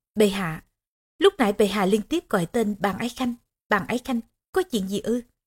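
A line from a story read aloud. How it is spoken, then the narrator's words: Soft speech. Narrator (Vietnamese): Tỳ nhân nói khẽ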